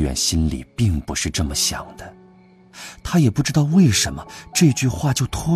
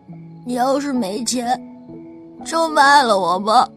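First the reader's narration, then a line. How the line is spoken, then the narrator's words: Sudden tearful voice. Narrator (Chinese): 那小崽子突然带着哭腔来了一句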